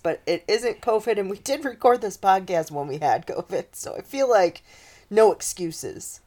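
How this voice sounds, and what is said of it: Congested voice with a cold. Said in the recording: “I have a little bit of a cold today, so I apologize for my voice”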